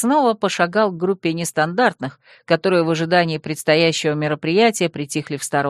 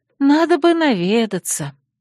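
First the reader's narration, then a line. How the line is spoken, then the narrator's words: Sighing addition. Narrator (Russian): И, вздохнув, добавила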